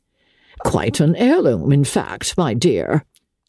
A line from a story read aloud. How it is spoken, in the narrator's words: the old lady chuckled